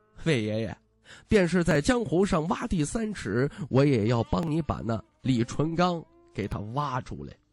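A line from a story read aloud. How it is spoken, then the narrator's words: Chuckling. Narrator (Chinese): 徐凤年嘿嘿笑着说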